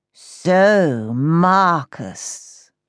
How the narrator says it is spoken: drawled

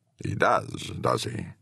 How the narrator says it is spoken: McDermott rumbled

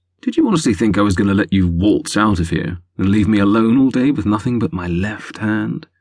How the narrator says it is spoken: purred in her ear

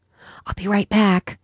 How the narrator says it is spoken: whispered

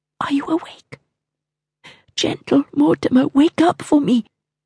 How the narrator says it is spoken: whispered

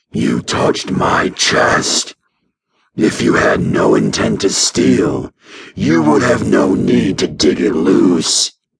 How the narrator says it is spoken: Keensight hissed

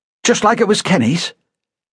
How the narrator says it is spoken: said Canham sharply

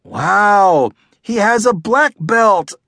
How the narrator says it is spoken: I shouted

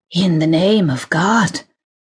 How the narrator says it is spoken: wheezed a voice unctuously

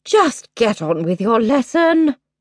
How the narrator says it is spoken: sighed

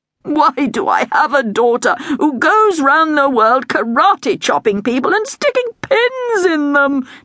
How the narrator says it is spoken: the king moaned

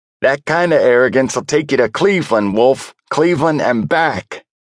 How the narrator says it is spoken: Frankie hollered through the open window

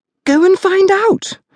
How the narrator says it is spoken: screeched the woman

